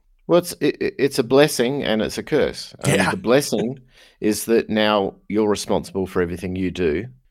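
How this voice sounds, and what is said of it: Australian accent. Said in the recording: “I can't talk with an Australian accent. It's just cooler this way.”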